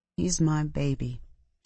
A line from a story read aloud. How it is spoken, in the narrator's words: she said softly